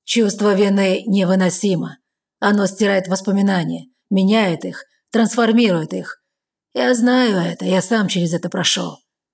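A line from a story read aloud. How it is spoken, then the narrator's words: Intoxicating voice. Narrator (Russian): дурманящим голосом сообщает Кэллум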